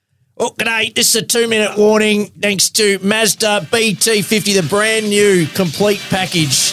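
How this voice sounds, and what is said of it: Impression of Nick Rinn. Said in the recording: “my best Nick Rinn impression.”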